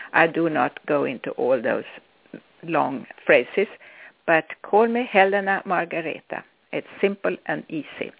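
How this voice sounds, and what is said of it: Swedish accent. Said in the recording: “I'm Swedish if you wonder what my accent comes from, what it is.”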